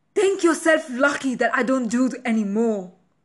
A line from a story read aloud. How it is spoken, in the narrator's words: Annie screaming